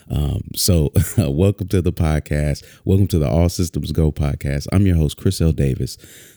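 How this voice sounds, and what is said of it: Deep smooth radio announcer voice. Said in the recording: “I've always been told I have a radio voice”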